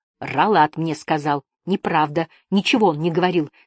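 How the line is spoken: Angry objection. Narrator (Russian): сердито возразила Жасмин

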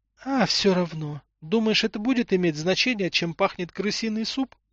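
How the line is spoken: Trailing into whisper. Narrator (Russian): Последние слова Тамара произнесла шепотом, чтобы не напугать дочь

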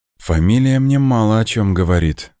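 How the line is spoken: Mother sighing. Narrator (Russian): вздохнула мама

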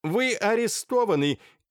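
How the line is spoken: Shouted in French. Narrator (Russian): крикнул по-французски

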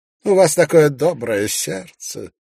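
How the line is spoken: Sighing. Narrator (Russian): вздохнул Ноэль Ванстоун

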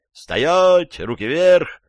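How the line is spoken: Group yelling. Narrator (Russian): заорали они

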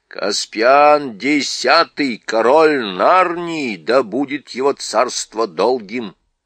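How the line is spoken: Plain. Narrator (Russian): ответил гном

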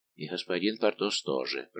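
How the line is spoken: Muttering. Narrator (Russian): пробормотал Планше

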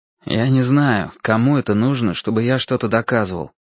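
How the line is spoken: Gloomy objection. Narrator (Russian): возразил я мрачно

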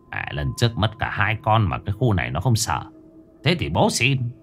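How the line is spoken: Muttering. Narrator (Vietnamese): nó lẩm bẩm

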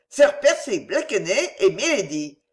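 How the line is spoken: Shrill shout. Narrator (French): cria-t-il de sa voix la plus aiguë

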